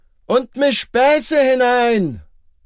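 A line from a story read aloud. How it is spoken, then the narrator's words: Shouted. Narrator (German): schrie Heine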